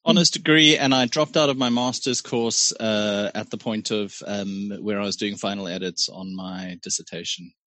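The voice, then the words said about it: Posh South African accent. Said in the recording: “He's from Pretoria. ... You went to Pretoria Boys High School. That's where that posh, annoying accent comes from.”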